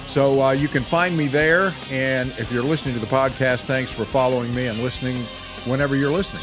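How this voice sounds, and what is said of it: Voice not normal, sounds ill. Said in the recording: “I don't know if my voice is ever going to get back to normal. I keep thinking I'm going to crack this microphone and I'm going to sound like I'm supposed to sound... coughing fits... my allergies and this lingering cold”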